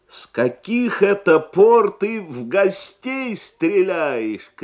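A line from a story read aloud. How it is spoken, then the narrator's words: Shout. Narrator (Russian): крикнул дядя Сандро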